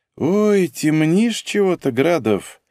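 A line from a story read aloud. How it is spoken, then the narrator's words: Mocking drawl. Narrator (Russian): насмешливо протянула она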